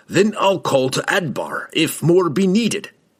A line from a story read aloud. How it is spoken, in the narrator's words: Brunner snapped